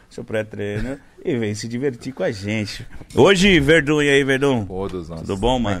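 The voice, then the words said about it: Strong Bahian Brazilian accent. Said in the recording (Portuguese): “o negócio do, do Bahia é minha, meu sotaque ... Eu tenho um sotaque muito forte ... O sotaque é bem acentuado”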